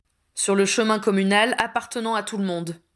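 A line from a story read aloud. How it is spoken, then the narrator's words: Curt retort. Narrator (French): répliqua sèchement Harry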